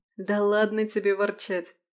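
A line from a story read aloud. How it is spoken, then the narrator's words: Laughing. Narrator (Russian): рассмеялась Алиса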